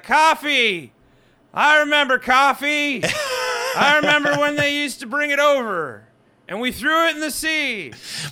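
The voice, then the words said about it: Yelling impression of an old man. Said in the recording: “The Joe Biden is that you're yelling across the street at your neighbor. That's all it is. You're yelling at your neighbor about the weather, and it's just a really slow country night.”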